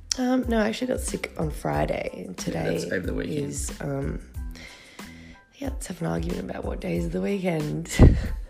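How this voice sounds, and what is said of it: Husky, croaky voice. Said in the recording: “Apologies for my voice. It sounds really husky because I've got a bit of a cold and a sore throat. So, a bit croaky.”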